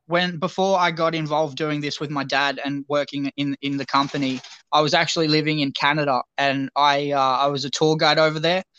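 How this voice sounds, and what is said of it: Strong Australian accent. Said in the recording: “how strong my Australian accent was ... it was stronger than I may have thought”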